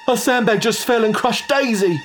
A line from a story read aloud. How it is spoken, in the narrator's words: Rudy blurted out